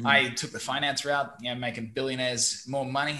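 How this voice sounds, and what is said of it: Australian accent. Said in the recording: “my accent doesn't sound very Vietnamese. I'm originally from Brisbane, Australia”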